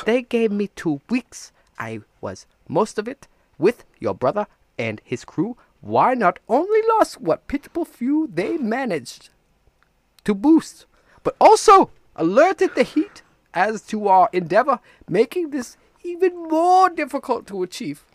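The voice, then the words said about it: Shifting, vaguely Asian put-on accent. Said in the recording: “Your accent keeps changing so much. I know. You sound vaguely Asian now.”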